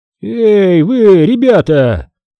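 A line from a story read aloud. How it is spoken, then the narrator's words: Creaky voice. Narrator (Russian): проскрипел мистер Амг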